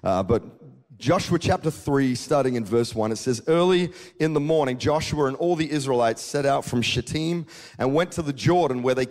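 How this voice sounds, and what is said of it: Mixed Australian and American accent. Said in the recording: “my kind of quasi-Australian slash half-American accent”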